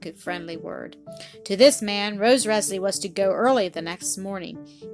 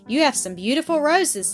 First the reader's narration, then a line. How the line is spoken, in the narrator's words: he exclaimed